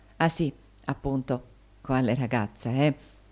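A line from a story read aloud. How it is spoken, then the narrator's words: Whisper. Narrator (Italian): bisbigliò Tommaso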